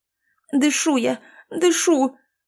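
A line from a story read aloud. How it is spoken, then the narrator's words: Indignant wheeze, woman in labor. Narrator (Russian): возмущенно захрипела роженица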